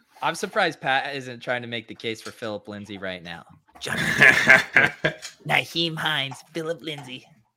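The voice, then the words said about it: Imitates another person's voice. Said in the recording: “doing a Davis voice ... why are you doing the Davis voice?”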